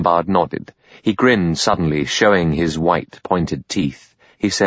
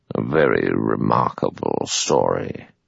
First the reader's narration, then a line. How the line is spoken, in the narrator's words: The judge murmured